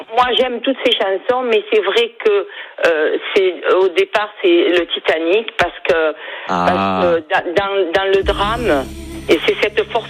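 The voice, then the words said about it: Slight Perpignan regional accent. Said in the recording (French): “J'ai l'accent perpignanais ... On sent le petit accent”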